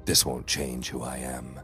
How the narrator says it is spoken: I said quietly

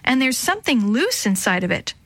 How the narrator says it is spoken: she yelled

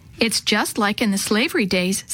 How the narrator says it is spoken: Sammy answered

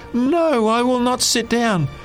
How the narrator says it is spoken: yelled

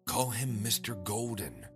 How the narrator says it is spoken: she whispered to me

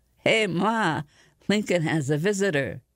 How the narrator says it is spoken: calls back, chuckling deeply

